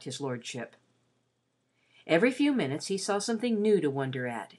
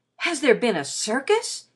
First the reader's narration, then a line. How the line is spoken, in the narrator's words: cried